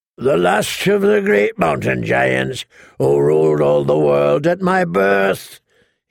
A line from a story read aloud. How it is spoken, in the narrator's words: he bellowed back through the snow